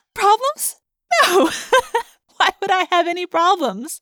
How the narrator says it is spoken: I giggled

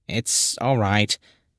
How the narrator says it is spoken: the darkness said in a slightly muffed voice

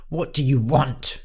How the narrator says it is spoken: He snapped

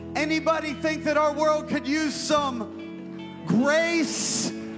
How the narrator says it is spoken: Your shout

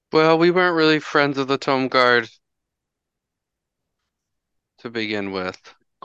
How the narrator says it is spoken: Klika says sadly

